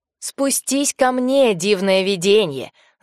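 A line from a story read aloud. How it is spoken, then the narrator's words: Yelling. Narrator (Russian): заорал Остопов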